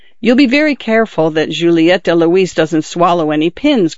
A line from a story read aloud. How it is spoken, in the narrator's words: cried Lucina